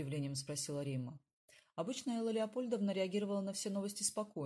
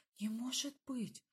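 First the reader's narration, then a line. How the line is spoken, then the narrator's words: Grandmother whispering. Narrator (Russian): прошептала бабушка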